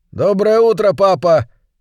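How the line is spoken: Shout. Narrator (Russian): крикнул он

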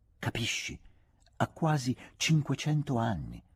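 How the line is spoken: Whispering. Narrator (Italian): sussurrava

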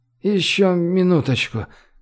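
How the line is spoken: Sleepy request. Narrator (Russian): сонным голосом попросил Рогалик

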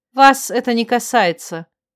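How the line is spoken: Cold reply. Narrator (Russian): столь же холодно ответила

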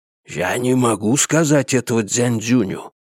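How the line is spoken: Doomed whisper. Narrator (Russian): услышал я обреченный шепот полковника

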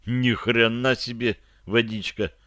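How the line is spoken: Mutter. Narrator (Russian): пробормотал я

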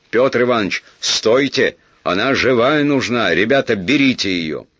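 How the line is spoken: Warning shout. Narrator (Russian): Мыльников, предостерегающий крикнул

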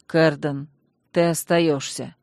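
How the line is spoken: Gloomy command. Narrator (Russian): мрачно скомандовал Танрад

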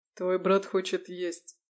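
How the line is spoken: Snort. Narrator (Russian): хмыкнул Лис

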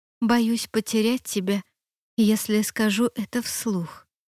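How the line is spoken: Very quiet. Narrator (Russian): произнесла я совсем тихо, чтобы судьба не услышала

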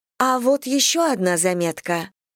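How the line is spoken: Exclaimed. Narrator (Russian): воскликнула она

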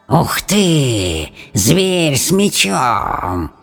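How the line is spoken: Creature hissing. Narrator (Russian): прошипело создание

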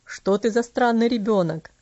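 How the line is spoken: Laughing. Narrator (Russian): рассмеялся

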